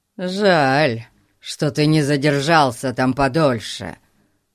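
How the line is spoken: Grumble. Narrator (Russian): проворчал он

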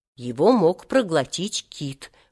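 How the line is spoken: Whispered. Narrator (Russian): прошептал Сережа

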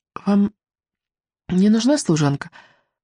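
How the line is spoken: Timid whisper. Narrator (Russian): робко прошептала Мелисенда

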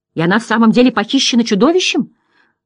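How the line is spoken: Exclamation. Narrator (Russian): воскликнул герой Хинрик

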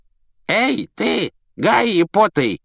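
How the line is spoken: Creaky voice. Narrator (Russian): проскрипел он

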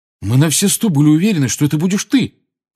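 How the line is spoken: Aggrieved, accusing exclamation. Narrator (Russian): воскликнул Фред таким тоном, словно Гарри в чем-то его обманул

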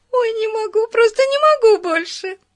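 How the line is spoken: Giggling. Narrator (Russian): хихикала она

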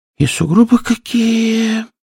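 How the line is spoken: Hedgehog sighing. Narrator (Russian): вздохнул ежик

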